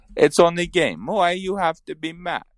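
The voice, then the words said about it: Bad Ilya Bryzgalov impression. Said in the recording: “bad Ilya Bryzgalov impression”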